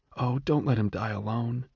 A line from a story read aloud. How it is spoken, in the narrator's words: whisper